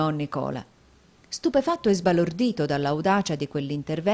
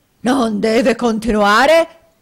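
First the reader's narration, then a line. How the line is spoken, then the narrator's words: Near-screaming shout. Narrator (Italian): gridò Squeers quasi con un urlo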